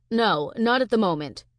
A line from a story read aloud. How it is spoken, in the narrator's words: Carson answers, his voice firm and strong